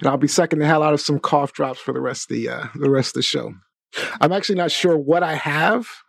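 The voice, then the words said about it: Slightly sick, off-sounding voice. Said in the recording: “I am a little sick today, so I apologize if my voice is a little off”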